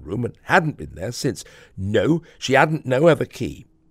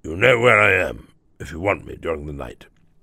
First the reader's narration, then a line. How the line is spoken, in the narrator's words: he murmured in a gruff undertone